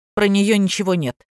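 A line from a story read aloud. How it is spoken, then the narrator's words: Angry. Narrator (Russian): сердито сообщил Юра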